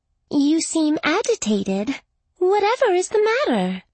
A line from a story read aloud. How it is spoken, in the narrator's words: Her voice rose in a lilting sing-song